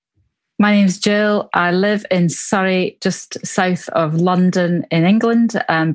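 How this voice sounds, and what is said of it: Scottish Glasgow accent. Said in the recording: “my accent is from Glasgow in Scotland, where I was born”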